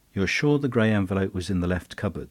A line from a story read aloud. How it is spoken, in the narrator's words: he asked